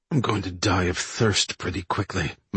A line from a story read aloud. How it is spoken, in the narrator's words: muttered George Morton